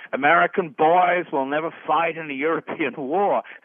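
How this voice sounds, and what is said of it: FDR impression, upstate New York accent. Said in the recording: “if I may try to get my accent right for North New York State”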